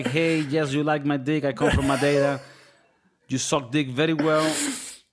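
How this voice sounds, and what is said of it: Russian accent impression of Cristiano Ronaldo. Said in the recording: “Every characterization of another person that speaks with an accent is going to be of a Russian person because that's the only one I can do.”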